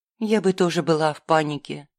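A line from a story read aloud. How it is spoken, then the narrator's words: Soft. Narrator (Russian): мягко ответила я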